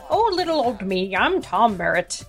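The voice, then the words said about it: Put-on accent with Irish traces. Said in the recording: “I'm not sure what accent I'm trying to do. ... The Belmontian accent has traces of Irish.”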